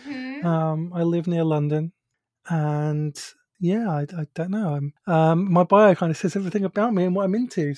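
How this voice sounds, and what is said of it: British accent. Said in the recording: “if you recognize my accent, you'll know that I'm from the UK, so I have a British accent.”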